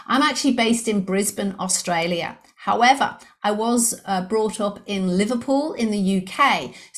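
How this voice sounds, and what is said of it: English accent blended with Australian. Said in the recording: “the English accent, you were correct. I do have an English accent. ... I'm a bit of a blend of English and Australian now.”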